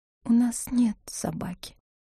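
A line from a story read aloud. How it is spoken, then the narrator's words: Whisper. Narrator (Russian): отчего-то шепотом сказала Нина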